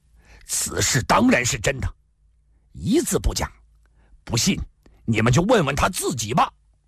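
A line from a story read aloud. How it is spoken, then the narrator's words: Angry roar. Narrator (Chinese): 公孙羽跳了起来，怒吼道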